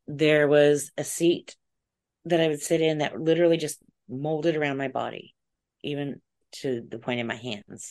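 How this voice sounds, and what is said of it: Strained, fading voice. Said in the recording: “excuse me, I'm losing my voice. I'm so sorry.”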